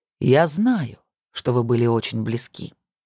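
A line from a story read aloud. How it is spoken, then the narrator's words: Soft, confiding. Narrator (Russian): мягко и доверительно произнес Эрта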